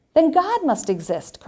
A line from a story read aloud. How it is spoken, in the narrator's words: cried the priest